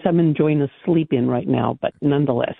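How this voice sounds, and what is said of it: Rough, sleepy-sounding voice. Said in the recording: “Sorry for the voice.”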